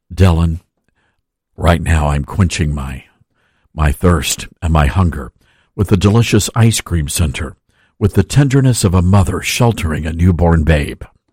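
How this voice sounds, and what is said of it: Golf commentator voice. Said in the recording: “I've got to do this in my golf voice.”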